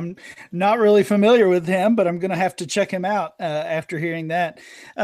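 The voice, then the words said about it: Kentucky accent. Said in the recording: “in case the accent didn't give it away, I'm here in Kentucky”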